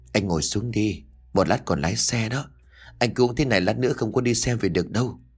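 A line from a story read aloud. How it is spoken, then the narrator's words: Gentle. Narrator (Vietnamese): dịu dàng bảo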